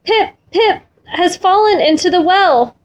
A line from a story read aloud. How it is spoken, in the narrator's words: gasped